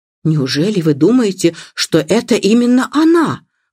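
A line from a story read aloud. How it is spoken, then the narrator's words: Exclaiming. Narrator (Russian): воскликнула миссис Бантри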